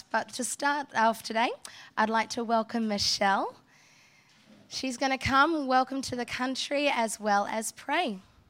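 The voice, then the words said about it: Slightly off, strained-sounding voice. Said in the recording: “I'm actually recovering from laryngitis. So if I sound a little funny”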